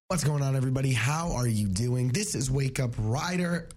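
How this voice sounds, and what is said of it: Raspy voice. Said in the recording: “you got a little raspy ... You've been raspy for the last couple days, dude.”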